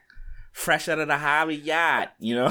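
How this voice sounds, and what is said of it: Convincing put-on Boston accent. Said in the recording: “That was a good Boston accent ... That was spot on.”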